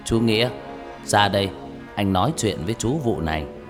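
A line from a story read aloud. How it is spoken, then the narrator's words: Low, mysterious voice. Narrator (Vietnamese): ông nói bằng giọng trầm trầm, đầy bí ẩn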